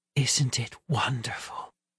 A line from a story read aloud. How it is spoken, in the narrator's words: she whispered